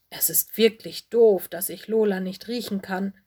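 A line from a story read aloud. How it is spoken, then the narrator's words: Grumpy growl. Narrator (German): knurrte Mino missmutig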